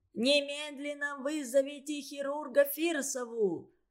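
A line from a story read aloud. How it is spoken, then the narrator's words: Angry stamping shout. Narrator (Russian): топая ногами, кричал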